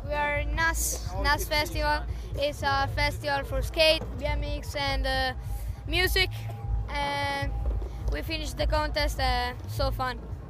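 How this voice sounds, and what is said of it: Italian accent, non-native English. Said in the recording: “where are you from? Because that's not a, that's ... not yeah. a British accent. ... From Italy. I'm from Italy.”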